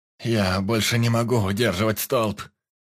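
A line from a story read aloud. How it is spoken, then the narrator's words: Groaning. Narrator (Russian): Простонал земляной маг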